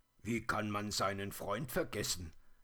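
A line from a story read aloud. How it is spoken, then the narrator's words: Grumbling. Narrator (German): brummte er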